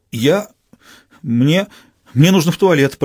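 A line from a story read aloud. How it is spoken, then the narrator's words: Pleading stammer. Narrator (Russian): пролепетал горе-зять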